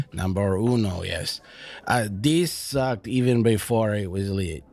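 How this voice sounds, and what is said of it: Deliberately bad put-on Mexican accent. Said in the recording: “my worst Mexican accent”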